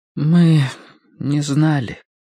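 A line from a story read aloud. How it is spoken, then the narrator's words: Muffled voice. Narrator (Russian): глухо проговорила Мэри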